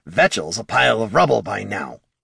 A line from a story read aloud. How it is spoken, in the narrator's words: Bert growled at the mages